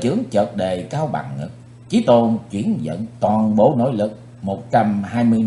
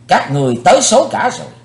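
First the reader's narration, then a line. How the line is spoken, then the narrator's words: Loud shout. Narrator (Vietnamese): Chí Tôn quát lớn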